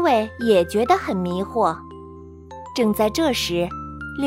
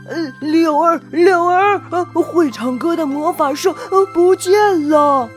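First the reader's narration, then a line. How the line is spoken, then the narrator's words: Breathless cry. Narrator (Chinese): 欧丽气喘吁吁地叫道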